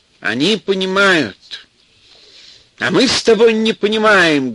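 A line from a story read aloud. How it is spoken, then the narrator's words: Loud speech. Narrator (Russian): громко заговорил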